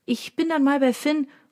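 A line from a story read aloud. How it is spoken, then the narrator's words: Calling into room. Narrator (German): ruft sie in den Raum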